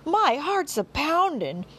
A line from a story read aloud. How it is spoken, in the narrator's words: a man exclaimed